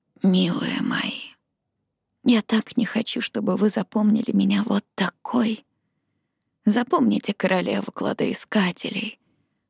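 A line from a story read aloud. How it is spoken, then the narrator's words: Weak, fading whisper. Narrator (Russian): прошептала слабеющим голосом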